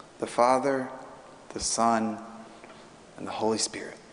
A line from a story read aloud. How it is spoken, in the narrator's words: A little bit louder this time, but still quite softly, he says